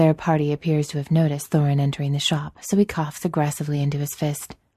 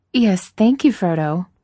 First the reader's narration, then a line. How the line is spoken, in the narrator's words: Miss Baggins hastily interrupts